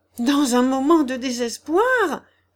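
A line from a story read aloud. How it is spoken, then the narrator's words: Miller's wife exclaiming. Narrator (French): s'écria la meunière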